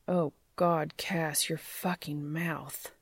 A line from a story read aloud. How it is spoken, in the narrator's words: groaned